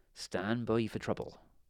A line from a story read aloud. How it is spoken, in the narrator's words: he whispered